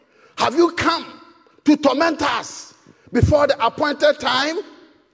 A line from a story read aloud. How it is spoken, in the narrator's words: They shouted